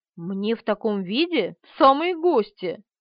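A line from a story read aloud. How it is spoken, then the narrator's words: Indignant. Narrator (Russian): возмущенно сказала Полина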